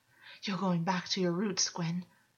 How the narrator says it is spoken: August gasped

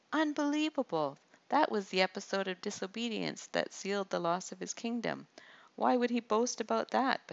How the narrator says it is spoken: Benaiah exclaimed

